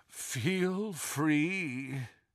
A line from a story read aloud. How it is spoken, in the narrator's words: groaned the statue